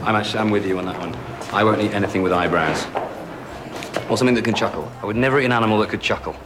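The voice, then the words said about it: Strong, hard-to-understand accent. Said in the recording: “I can't really understand your accent very well.”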